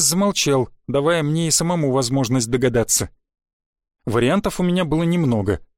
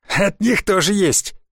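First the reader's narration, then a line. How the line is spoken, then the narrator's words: Cheerful laughter. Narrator (Russian): Сигис снова жизнерадостно захохотал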